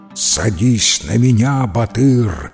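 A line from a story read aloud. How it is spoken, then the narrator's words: Plain. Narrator (Russian): говорит птица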